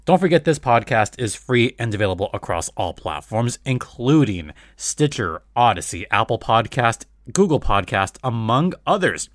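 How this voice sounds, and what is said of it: Unusually deep voice. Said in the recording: “my voice is a little bit, you know, it's a little bit deep right now”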